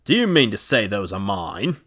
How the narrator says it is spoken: he cried

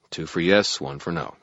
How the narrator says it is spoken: I muttered

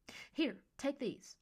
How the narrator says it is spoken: Mercy exclaimed

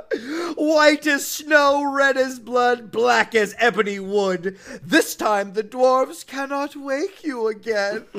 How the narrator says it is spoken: the queen looked at her with a dreadful look and laughed aloud and said

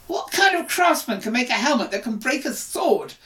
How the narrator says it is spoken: shouted Joffre

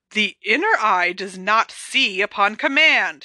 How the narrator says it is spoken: she said in a scandalized tone

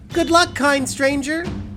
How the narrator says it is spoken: Katarina yelled

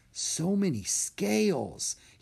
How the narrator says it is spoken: he whispered to himself

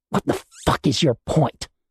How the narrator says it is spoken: Tally spat, anger taking over from shock

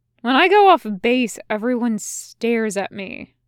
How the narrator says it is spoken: Ronon says

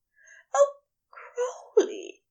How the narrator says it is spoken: he gasped

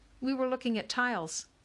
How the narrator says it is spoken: CJ said quickly

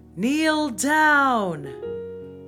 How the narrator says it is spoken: the command was shouted

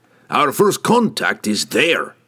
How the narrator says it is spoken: growled Brunner

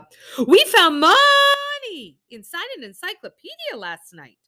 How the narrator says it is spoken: Juby piped up

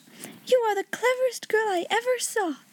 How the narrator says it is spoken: cried out

